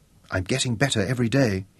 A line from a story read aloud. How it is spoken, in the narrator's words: he whispered